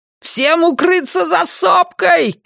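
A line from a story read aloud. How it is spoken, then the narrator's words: Shouted command. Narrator (Russian): крикнул Люган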